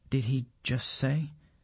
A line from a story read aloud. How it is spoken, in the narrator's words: asks Govinda in a quiet voice